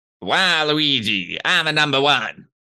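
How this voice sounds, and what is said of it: Luigi character voice impression. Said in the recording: “what's a good impression you can do? ... Not bad. That's not bad. That's definitely making the impression supercut”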